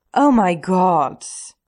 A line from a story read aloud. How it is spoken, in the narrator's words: Stiles hisses